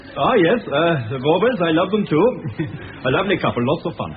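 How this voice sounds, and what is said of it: Glaswegian Scottish accent. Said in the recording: “I detect from your accent, sir, that you are not from round here. ... I am from Glasgow.”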